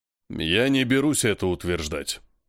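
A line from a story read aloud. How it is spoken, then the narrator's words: Booming bass. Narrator (Russian): громыхающим басом заявляет кавказец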